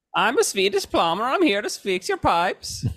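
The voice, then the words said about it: Put-on Swedish accent. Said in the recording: “That's a good Swedish accent from It's Always Sunny.”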